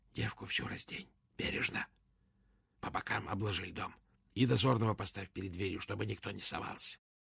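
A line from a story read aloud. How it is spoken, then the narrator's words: Very quiet whisper. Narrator (Russian): совсем тихо, шепотом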